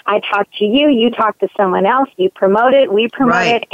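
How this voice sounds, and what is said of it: Slightly scratchy, hoarse voice. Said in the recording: “my voice got a little scratchy there. I've just been doing a lot of talking.”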